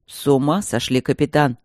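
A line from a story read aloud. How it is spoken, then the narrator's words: Angry retort. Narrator (Russian): сердито бросил Стрелковский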